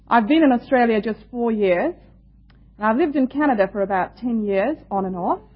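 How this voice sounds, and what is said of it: Indian English accent. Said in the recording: “I come from India, that's my home, so you will excuse my accent a little bit.”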